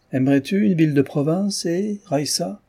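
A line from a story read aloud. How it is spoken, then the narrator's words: Almost joyful. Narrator (French): fit le père d'un ton presque joyeux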